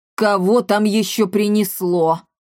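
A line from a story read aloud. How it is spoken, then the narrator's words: Displeased growl, muffled inside. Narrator (Russian): недовольно прорычала изнутри Коптильда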